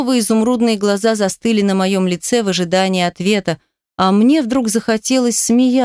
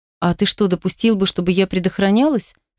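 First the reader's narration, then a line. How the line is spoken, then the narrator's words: Plain. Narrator (Russian): спросила Ира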